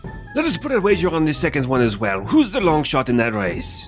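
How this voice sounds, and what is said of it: Put-on accent, self-described as terrible. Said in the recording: “is this accent really terrible?”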